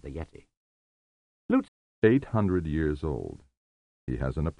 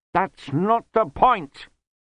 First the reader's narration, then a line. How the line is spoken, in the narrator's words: said Lobsang hotly